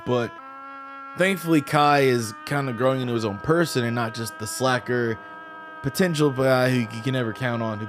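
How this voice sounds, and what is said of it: Rough, strained throaty voice. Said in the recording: “I sound like absolute shit. ... my throat sounds awful. My voice sounds terrible.”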